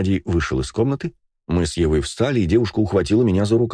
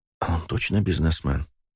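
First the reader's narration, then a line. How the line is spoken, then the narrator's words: Whisper. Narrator (Russian): прошептала она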